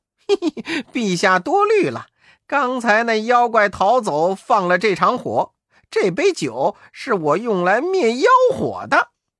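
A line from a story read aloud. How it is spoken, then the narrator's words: Laughing. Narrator (Chinese): 悟空笑道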